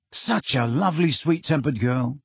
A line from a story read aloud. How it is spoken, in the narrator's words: said Ron very quietly